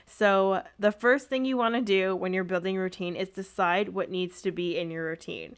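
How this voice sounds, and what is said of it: Canadian accent. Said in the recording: “I feel like I can hear my Canadian accent way more right now ... I hear it. I very much do hear it.”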